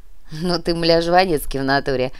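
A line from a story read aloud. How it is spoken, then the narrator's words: Approving laugh. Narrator (Russian): Одобрительно рассмеялся парень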